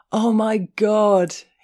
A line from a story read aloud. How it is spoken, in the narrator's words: he howled